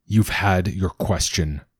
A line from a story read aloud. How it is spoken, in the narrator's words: Father says coldly